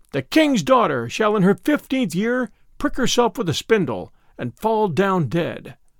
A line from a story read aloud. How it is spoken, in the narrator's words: She wished to avenge herself for not having been invited, she cried with a loud voice